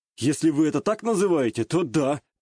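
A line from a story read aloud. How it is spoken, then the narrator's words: Wry snort. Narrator (Russian): хмыкнул я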